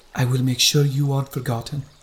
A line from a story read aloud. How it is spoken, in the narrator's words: she said